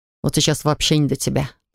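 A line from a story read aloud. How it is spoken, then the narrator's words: Growl. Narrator (Russian): рыкнул он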